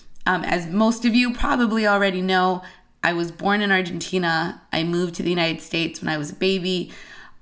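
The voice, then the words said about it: Voice sounds different than usual. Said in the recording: “my voice sounds a little bit different than usual”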